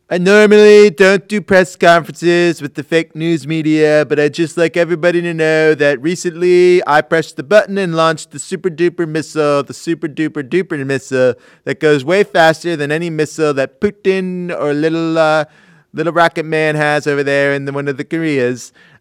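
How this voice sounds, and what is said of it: Imitates another person's voice. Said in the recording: “going to do a quick impression”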